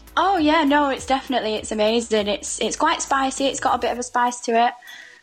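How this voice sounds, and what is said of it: Northern English accent, near Manchester. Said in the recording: “This accent ... Where is your accent from? ... a small town called Haywood, which is just in between Bury and Rochdale. I'm not quite Mancunian, but on the outskirts.”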